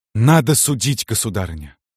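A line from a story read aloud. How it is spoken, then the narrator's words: Precise, blurted out. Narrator (Russian): Ответил точно, выпалил Никита Иванович и даже вздохнул как-то сразу и коротко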